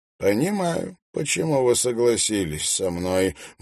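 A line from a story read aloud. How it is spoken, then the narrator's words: Gloomy remark. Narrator (Russian): мрачно заметил он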